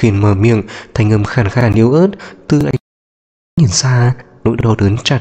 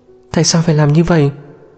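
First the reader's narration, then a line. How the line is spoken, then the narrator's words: Trembling voice. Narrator (Vietnamese): Giọng của Lạc Tranh cũng run rẩy theo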